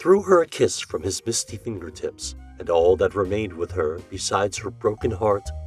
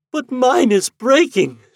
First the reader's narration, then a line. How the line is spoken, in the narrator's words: she wailed, madly